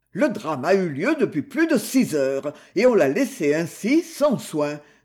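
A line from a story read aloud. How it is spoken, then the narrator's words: Grumbling. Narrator (French): grommela-t-il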